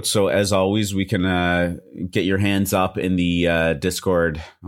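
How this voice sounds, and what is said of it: DJ-style announcer delivery. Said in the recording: “I sounded like a DJ myself there. Like, put your hands up.”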